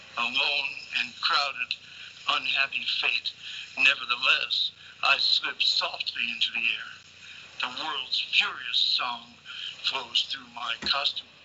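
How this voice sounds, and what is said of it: Midwestern American accent. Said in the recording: “I heard the Midwestern accent.”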